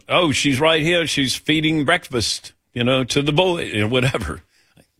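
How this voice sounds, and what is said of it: Imitates another person's accent. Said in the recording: “How was that accent?”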